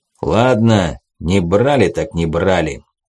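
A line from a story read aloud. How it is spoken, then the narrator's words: Unexpectedly calm. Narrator (Russian): Чалый ответил неожиданно спокойно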